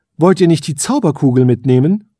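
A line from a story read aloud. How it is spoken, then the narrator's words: Queen calling out. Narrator (German): rief die Elfenkönigin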